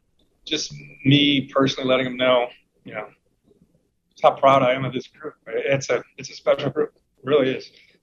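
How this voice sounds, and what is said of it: Emotional, choked-up voice. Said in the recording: “pardon me for getting a little emotional”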